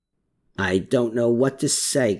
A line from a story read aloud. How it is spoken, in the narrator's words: Klaus muttered